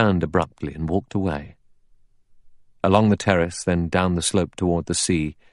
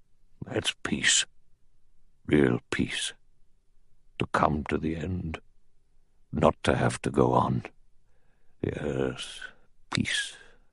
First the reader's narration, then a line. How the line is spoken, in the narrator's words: he said in a low, strange voice